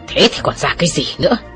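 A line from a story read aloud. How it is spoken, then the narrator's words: Scolding shout. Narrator (Vietnamese): Giả Liễn quát mắng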